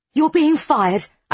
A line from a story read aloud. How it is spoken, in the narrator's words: I blurt out